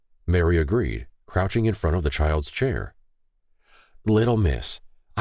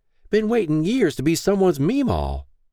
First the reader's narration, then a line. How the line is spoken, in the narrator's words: she exclaimed with a smug wink